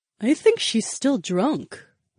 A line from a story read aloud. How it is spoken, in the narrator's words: the gorgeous brunette murmured